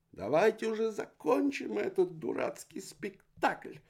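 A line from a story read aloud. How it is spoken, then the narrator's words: Shrieking aunt. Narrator (Russian): Завизжала тетушка Парандола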